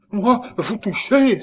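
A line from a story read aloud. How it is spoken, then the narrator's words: Horrified exclamation. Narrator (French): s'écria-t-elle avec horreur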